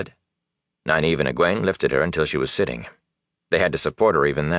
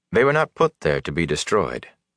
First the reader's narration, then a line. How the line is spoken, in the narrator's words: the Aes Sedai said curtly